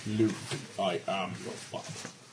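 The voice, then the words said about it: Good Darth Vader voice impression. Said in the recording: “That was actually a really good impression. ... the guy who does that voice is like freaking awesome”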